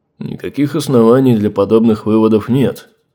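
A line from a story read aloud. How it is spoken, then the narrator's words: Plain. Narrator (Russian): ответил Торбранд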